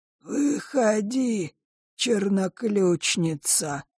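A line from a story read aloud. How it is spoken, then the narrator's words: Creaky voice. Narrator (Russian): проскрипел клокер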